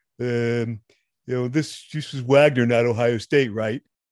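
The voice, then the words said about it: Exaggerated dumb sports-fan voice. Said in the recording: “You like my dumb fan voice ... Letterman used to use that same dumb voice ... You nailed the fan voice.”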